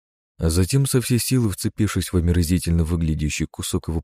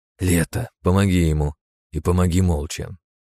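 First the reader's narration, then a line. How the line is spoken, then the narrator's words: Displeased, grimacing tone. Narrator (Russian): скривилась дочь Харса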